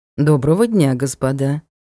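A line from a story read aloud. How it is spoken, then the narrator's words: Calm. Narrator (Russian): спокойно сказал мужчина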